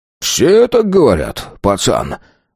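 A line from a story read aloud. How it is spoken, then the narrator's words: Coachman laughing loudly. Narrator (Russian): захохотал кучер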